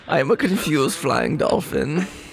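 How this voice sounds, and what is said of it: Odd put-on character accent. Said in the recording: “what is up with your accent?”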